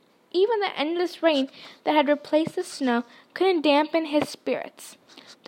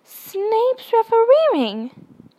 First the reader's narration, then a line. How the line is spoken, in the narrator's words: he spluttered through a mouthful of mud